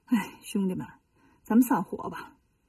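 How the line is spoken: Sighing. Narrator (Chinese): 悟空叹了口气说

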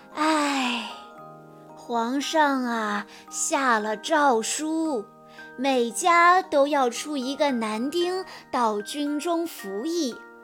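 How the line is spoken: Sighing father. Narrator (Chinese): 父亲叹着气说

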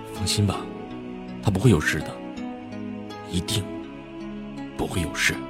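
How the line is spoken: Low, resolute voice. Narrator (Chinese): 齐然声音低沉却坚决

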